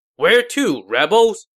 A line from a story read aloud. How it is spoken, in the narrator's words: Zhao Yun shouted